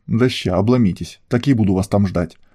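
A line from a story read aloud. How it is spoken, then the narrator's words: Angry blurt. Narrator (Russian): Зло выпалило Альфа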